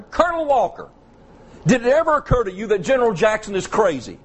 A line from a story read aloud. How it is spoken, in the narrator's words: General Ewell spotted him, and he hollered